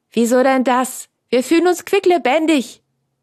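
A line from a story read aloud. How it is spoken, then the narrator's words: Calling out. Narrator (German): rief Franz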